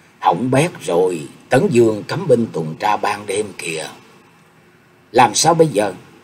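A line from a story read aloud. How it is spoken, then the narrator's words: Worried hushed voice. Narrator (Vietnamese): Nhạc Chi Dương âm thầm kêu khổ, nhỏ giọng nói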